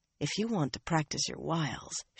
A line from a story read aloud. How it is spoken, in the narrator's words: she said softly